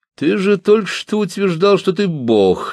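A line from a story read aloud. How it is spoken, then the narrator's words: Laughing. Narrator (Russian): засмеялся Бас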